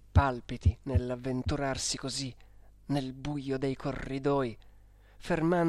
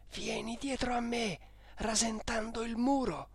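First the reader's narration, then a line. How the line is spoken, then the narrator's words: Whispered in ear. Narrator (Italian): mi sussurrò in un orecchio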